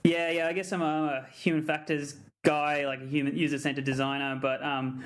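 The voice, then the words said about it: Broad Australian accent. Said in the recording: “it's got a broader accent than you guys... Australia”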